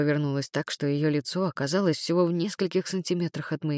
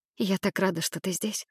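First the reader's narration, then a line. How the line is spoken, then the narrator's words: Whisper. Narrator (Russian): прошептала она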